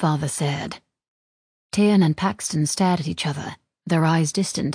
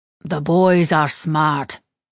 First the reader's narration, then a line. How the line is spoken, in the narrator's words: their father said